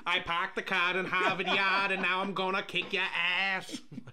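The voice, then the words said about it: Put-on Boston accent. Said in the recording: “cannot do the Boston accent”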